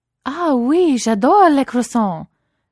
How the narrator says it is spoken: Chelsea added loudly, with her most authentic French accent, to provide the appropriate background noise for Peaches' call

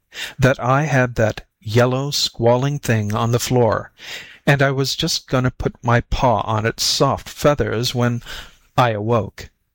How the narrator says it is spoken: he went on calmly

